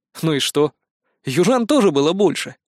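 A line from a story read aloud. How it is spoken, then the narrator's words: Calm. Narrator (Russian): спокойно ответил я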